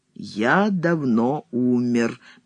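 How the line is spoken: Slow, weighty. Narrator (Russian): медленно и веско повторяет Сологуб

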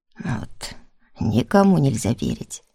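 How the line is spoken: Grumbling. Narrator (Russian): Пробурчал он

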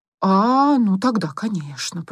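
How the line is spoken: Drawn-out drawl. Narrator (Russian): протянула она

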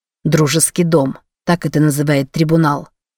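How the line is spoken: Angry reply. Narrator (Russian): сердито ответил он

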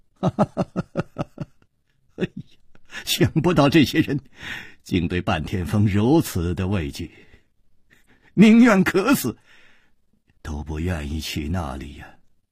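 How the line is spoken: Hunchback sighing, half-laughing half-crying. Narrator (Chinese): 那个驼子就叹了一口气，哭笑着说

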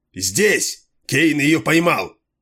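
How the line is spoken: Hoarse shout. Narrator (Russian): Кейн хрипло закричал

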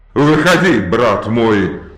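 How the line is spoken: Roaring. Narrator (Russian): проревел он

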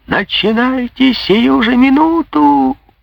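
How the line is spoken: Shrieking. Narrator (Russian): визжал школяр

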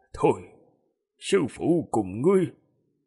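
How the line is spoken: Quiet voice. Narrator (Vietnamese): Thiên Tà Tử nhỏ giọng nói

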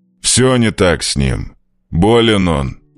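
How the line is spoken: Gruff old man's growl. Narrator (Russian): рыкнул старик

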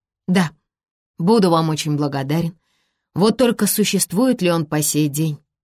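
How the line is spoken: Sighed. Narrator (Russian): вздохнул Ари

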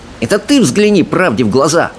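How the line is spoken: Snapping retort. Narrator (Russian): огрызнулась камикадзе

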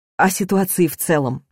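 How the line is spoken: Sighing. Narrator (Russian): вздохнула я

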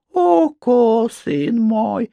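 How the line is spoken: Honeyed voice. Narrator (Russian): ответила медоточивым голосом

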